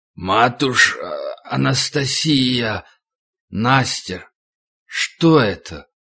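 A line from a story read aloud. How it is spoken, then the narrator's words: Threatening growl. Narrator (Russian): Миша угрожающе зарычал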